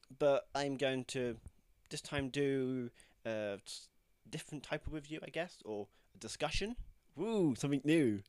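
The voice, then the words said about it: Congested, blocked-nose voice. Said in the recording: “I sound a bit bunged up, I've got a bit of a cold.”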